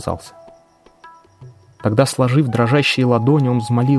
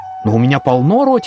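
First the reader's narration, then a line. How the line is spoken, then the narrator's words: Exclaiming. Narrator (Russian): воскликнул Ганашьям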